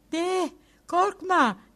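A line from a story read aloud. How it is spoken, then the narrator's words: Shouted. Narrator (Turkish): diye haykırdı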